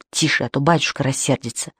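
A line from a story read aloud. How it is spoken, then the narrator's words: Reproachful whisper. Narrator (Russian): Никита шептал ему с укором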